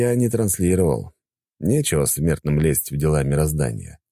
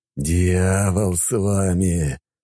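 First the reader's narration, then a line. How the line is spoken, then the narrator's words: Groan. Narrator (Russian): Простонал я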